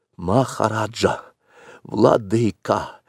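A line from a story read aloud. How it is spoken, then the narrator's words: Hoarse whisper. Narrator (Russian): произнес он, наконец, хриплым шепотом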